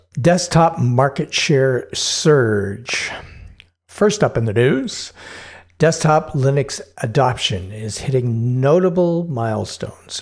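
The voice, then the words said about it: Newscaster voice. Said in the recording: “news voice”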